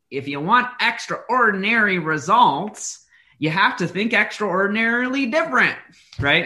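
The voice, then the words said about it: Imitates another person's voice. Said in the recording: “that's my best impression”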